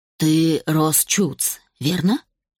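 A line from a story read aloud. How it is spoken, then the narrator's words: Deep husky male baritone. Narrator (Russian): повторил мужчина густым, хрипловатым баритоном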